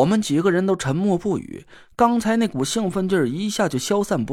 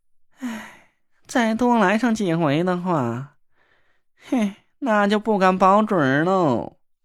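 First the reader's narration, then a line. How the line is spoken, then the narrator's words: Grave, soft sigh. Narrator (Chinese): 那若兰脸色凝重的……轻轻叹了口气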